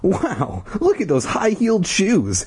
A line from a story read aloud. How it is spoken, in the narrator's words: Ashley exclaimed